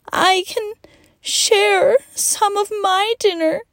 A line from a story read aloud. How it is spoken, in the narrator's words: choked out between sniffs and snobs